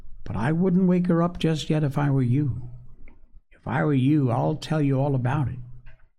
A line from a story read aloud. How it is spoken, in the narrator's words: said the boy kindly